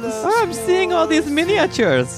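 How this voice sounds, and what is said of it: Weird Scandinavian-sounding put-on accent. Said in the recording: “you've gotten a little bit of a weird accent ... That's such a weird, what country is that accent? ... Maybe a little Denmark and Finland.”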